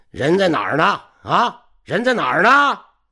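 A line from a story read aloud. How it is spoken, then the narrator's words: Old man shouting from afar. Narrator (Chinese): 吴老头还有老远呢，就喊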